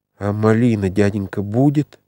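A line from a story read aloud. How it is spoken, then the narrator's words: Plain question. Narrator (Russian): спросила Акулька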